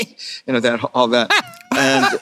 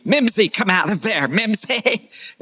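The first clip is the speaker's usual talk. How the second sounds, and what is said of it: Imitates another person's voice. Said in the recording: “I like his impression better than yours, Gil... He's got a dead-on”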